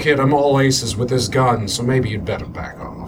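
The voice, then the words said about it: Rat Pack-style mobster voice. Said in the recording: “I wanted the mobster to have a particular kind of affect ... my Christopher Walken accent sounds go a little Dean bit Martin ... it was kind of supposed to be a kind of a Rat Pack kind of”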